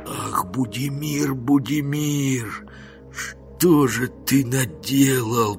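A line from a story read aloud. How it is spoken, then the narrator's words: Moaned to himself. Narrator (Russian): простонал про себя Жихарь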